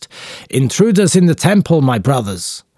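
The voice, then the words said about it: Powerful shout with strong accent. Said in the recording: “In a powerful voice, with a strong accent, he shouts”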